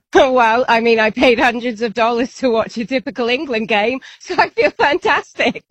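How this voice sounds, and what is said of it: British accent. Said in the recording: “You'll hear it in her accent. She is very British.”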